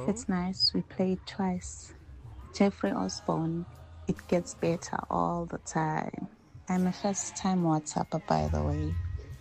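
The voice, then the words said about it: Low sultry bedroom voice. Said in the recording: “bedroom voice”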